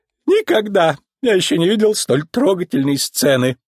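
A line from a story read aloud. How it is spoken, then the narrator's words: Squealer, tearful. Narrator (Russian): сказал визгун, смахивая копытцем слезу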